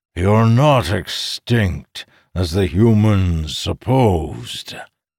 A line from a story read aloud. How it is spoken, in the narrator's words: he growled at the oncoming horde